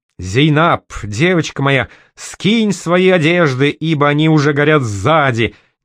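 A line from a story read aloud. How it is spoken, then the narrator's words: Sudden yell, mimicking a woman. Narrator (Russian): неожиданно завопил на средин, изо всех сил подражая голосу Далилы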